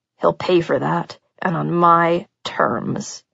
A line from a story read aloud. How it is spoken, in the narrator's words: he said in a low, deadly voice